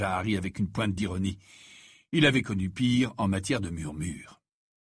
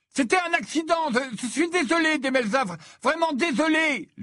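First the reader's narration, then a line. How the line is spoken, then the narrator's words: Shouted. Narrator (French): lui cria Ron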